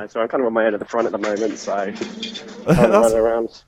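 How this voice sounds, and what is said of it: Strong Australian or Kiwi accent. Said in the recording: “he's got a really strong Australian accent now ... We're loving your Australian accent ... I thought it was a bit more Kiwi than anything else”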